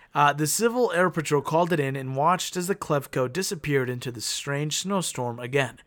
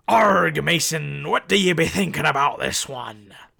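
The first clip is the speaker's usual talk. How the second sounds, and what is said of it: Pirate voice. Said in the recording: “Do you like when I do the pirate voice? ... It was pretty good.”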